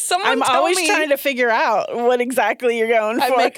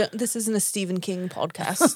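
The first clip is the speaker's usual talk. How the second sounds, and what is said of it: Attempted British accent. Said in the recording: “I had to say that in a British accent ... Oh, is that what you were going for? British accent? ... I thought that was a killer British accent.”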